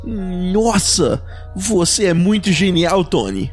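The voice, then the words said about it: Imitates another person's voice. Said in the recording (Portuguese): “Essa foi minha imitação do, do Luck.”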